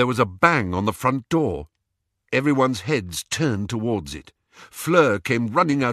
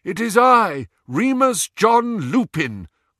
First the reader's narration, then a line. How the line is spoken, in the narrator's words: called a voice over the howling wind